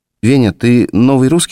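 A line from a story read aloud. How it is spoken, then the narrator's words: Plain. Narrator (Russian): спросила Лена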